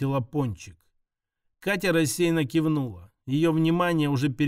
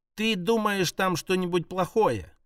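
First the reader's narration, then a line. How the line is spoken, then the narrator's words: Plain. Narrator (Russian): спросила Пончик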